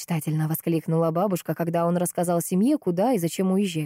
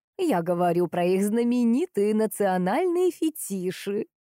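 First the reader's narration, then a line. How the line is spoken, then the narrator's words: Laughing grandmother advising. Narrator (Russian): рассмеялась бабушка и посоветовала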